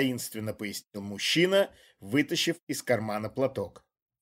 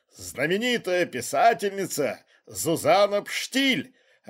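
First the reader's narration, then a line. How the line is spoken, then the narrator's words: Police chief, joyful announcement. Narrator (Russian): радостно объявил шеф жандармов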